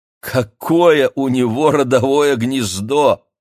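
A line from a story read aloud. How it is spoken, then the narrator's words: Loud laughter. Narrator (Russian): хохотала мама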